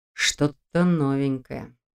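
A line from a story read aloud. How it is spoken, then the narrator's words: Quiet remark. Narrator (Russian): тихо прокомментировал Долгов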